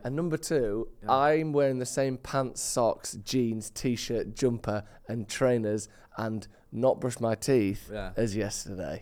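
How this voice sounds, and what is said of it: Voice in poor shape. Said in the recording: “my voice isn't great”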